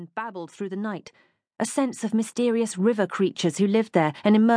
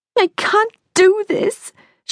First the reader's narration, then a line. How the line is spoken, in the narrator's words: howled, hunched over with the crying